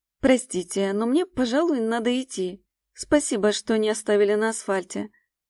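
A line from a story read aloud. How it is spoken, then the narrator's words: Calm. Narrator (Russian): спокойно говорит она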